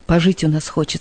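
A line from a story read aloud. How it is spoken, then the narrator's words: Plain. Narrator (Russian): сказал он дочери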